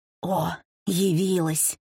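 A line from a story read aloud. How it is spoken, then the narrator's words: Quiet hiss. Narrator (Russian): тихо шипела Кармен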